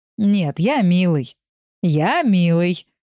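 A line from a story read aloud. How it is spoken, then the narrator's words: Laughing. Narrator (Russian): Он засмеялся, вспомнив, как я его называла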